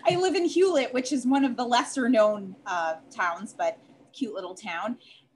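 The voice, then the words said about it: Chicago accent. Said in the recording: “I'm actually originally from Chicago, uh, hence my accent. ... I could hear it. Yeah, I hear it in your accent.”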